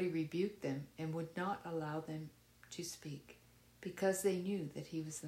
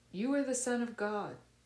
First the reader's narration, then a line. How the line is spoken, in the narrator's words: Demons shouting